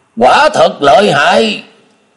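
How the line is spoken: Exclaiming. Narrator (Vietnamese): Bạch Tiêu Thiên kêu lên

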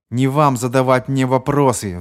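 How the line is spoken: Roar. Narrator (Russian): взревел Маккомб

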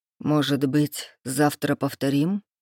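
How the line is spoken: Quiet, questioning man. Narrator (Russian): уточнил мужчина негромко

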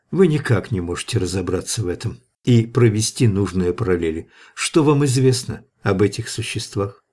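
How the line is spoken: Wistful sigh. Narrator (Russian): Гроссвенф тоскливо вздохнул

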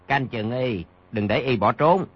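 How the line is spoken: Lowered voice. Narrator (Vietnamese): Bèn hạ giọng, nói

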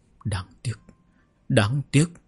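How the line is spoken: Conflicted mumbling. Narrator (Vietnamese): Trì Cứu Vân đã có vẻ mặt phức tạp lầm bầm

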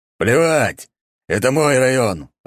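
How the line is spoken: Growl. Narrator (Russian): рыкнул он

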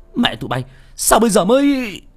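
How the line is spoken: Strained angry shout. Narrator (Vietnamese): Văn khó nhọc, quát

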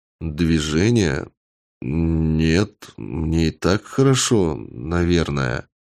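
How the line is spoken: Unsure reply. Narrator (Russian): неуверенно ответил я

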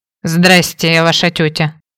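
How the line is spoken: Angry mutter. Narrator (Russian): сердито буркнула

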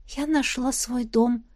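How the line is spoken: Weak smiling whisper. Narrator (Russian): прошептала я и слабо улыбнулась

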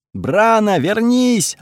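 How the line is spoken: Yelling from behind. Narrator (Russian): орал позади Бауч

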